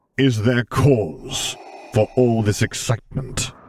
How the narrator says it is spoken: asked, words rumbling over the discreet commotion, easily drowning them out

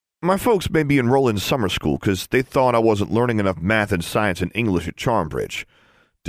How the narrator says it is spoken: David grumbled

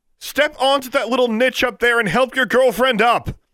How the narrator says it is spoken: Alexandra shouted

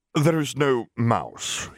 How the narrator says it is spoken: said

